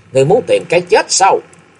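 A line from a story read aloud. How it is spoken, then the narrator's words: Loud shout. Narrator (Vietnamese): đồng thời miệng quát lớn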